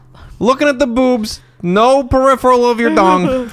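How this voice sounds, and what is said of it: Comic put-on character voice. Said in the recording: “I don't know why I'm doing this voice ... This is my jacking off bachelor voice. ... It's a very specific voice. ... It's sad.”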